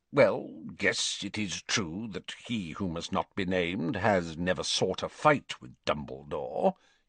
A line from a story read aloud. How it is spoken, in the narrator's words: he muttered grudgingly